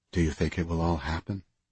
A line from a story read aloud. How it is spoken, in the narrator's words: Carmen asked quietly